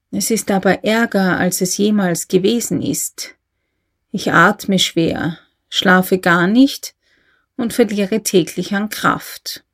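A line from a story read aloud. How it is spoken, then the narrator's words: Quiet. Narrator (German): sagte der Advokat leise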